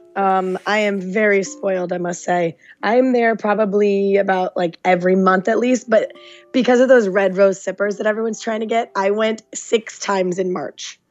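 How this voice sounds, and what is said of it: Slightly hoarse, strained voice. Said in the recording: “she's got a little voice issues, but it's from screaming at Disneyland ... lose your voice”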